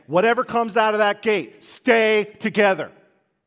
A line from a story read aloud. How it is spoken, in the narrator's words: he shouts again